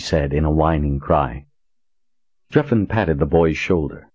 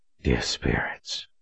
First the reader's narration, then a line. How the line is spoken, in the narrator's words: he breathed